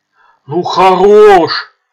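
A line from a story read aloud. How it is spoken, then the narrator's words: Loud rough, right in ear. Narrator (Russian): сказал громко и грубо в самое ухо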